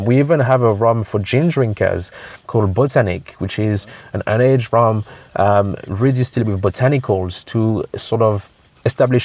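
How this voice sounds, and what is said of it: Slight Caribbean accent. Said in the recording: “you've got a bit of a Caribbean accent”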